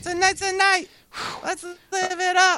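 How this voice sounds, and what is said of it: Painful high falsetto singing. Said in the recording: “all the way up into that falsetto, it's painful.”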